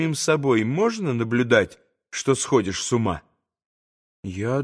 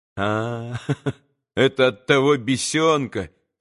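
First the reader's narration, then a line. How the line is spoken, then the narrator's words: Spiteful laugh. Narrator (Russian): рассмеялся он злобно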